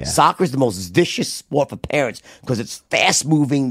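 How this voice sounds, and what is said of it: New York accent. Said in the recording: “me with my New York accent”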